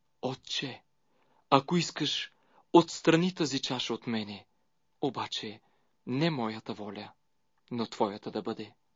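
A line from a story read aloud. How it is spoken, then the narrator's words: Kneeling prayer. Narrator (Bulgarian): като коленичи се молеше, като казваше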